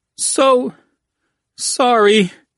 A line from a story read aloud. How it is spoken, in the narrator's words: Murrow moaned